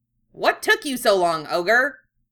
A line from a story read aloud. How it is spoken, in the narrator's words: Koenma snapped